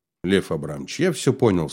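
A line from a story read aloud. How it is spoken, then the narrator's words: Quiet. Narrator (Russian): сказал Слава тихо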